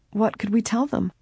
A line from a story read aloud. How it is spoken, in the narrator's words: Laura quavered